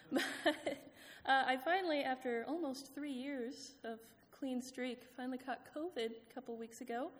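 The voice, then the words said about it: Slightly out of breath voice. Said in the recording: “I sound a little out of breath ... my lungs haven't gotten the memo yet. It's the joy of having asthma”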